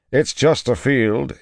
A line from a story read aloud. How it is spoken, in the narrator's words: said at last, too loudly